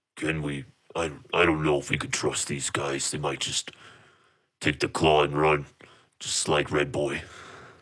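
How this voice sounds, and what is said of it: Low-voiced character voice. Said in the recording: “You hear him in this low voice.”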